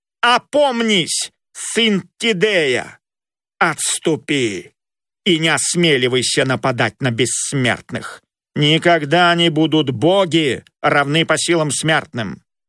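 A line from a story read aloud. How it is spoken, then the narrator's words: Menacing shout. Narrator (Russian): грозно крикнул ему Аполлон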